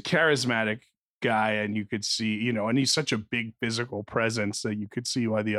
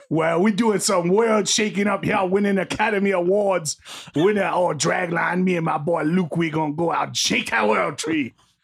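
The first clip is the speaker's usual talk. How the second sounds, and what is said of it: Imitates a film character's voice. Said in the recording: “do his acceptance speech in the voice of his character ... It's not that bad of an impression.”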